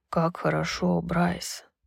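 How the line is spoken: Muffled mumble. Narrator (Russian): пробормотал Хант, не отрываясь от груди

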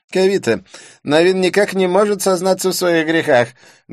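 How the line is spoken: Loud complaint. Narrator (Russian): громко посетовал Дидье

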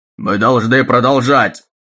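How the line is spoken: Shout. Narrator (Russian): выкрикнул Таггерт

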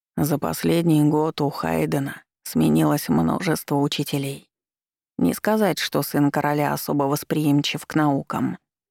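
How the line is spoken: Quiet speech. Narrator (Russian): он негромко произнес

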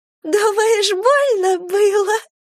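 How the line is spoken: Laughing. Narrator (Russian): засмеялась Полина

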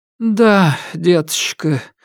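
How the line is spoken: Old woman sighing. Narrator (Russian): вздохнула бабушка

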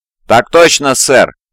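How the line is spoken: Group barking. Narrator (Russian): гаркнул взвод

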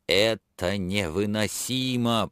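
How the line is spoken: Moan, almost a shout. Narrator (Russian): простонал он чуть не с криком

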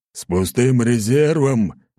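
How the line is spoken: Barked reply. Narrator (Russian): рявкнул в ответ Аршавин

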